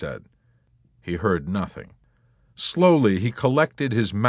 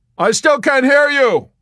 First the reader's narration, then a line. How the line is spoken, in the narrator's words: he shouted above the even drone of the engines